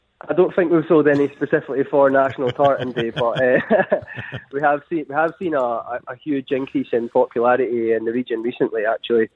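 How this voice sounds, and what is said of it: Scottish accent. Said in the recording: “That is a Scottish accent, if I've ever heard one.”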